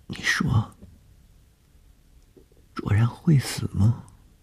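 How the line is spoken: Frightened question. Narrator (Chinese): 谢小婷在天亮之前的惊恐中一句无意的问话

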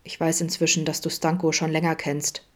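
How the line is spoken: Forced calm grumble. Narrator (German): brummte bemüht ruhig

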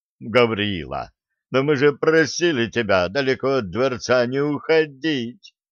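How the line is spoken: Moaning. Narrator (Russian): стонал Труссарди, едва успевая за остальными правителями Дюлока

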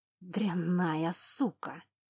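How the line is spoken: Warrior hissing. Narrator (Russian): зашипел воин

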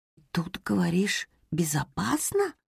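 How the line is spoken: Whisper in ear. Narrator (Russian): прошептала Роза на ухо хомячку

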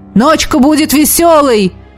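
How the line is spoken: Shouting into ear. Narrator (Russian): крикнул мне в ухо Элогим

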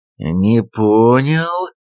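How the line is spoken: Drawn out. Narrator (Russian): протянул Хас

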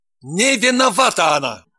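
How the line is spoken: Bellowed. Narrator (Russian): гаркнул Евгений

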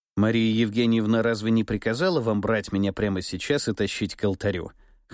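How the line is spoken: Smirking snort. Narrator (Russian): хмыкнул я

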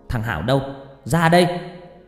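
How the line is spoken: Mother yelling loudly. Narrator (Vietnamese): mẹ tôi hét toáng lên

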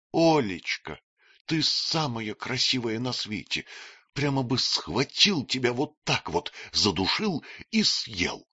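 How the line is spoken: Loud whisper, young man. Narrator (Russian): молодой человек громко шептал ей

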